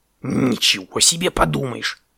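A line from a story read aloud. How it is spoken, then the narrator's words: Hissed. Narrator (Russian): прошипел он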